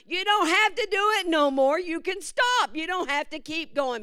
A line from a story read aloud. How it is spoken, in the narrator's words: another one said, and they're hollering